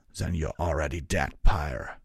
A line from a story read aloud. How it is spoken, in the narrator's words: Vengard growled